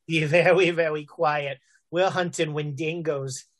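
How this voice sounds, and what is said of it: Elmer Fudd cartoon voice. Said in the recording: “the Elmer Fudd voice. I need it in the Elmer Fudd voice.”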